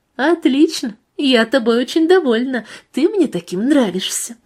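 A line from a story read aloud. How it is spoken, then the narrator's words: Purring. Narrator (Russian): продолжала мурлыкать Вика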